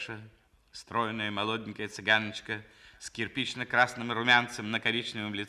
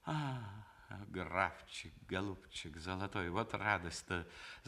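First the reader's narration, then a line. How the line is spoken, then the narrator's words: Through teeth, cheerful. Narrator (Russian): заговорила она сквозь зубы с веселой улыбкой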